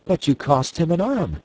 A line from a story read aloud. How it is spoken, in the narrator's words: exclaimed Miss Theodosia